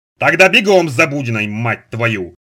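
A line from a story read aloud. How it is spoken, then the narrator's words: Deafening bark. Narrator (Russian): рявкнул Сошин так, что у Наноса заложило уши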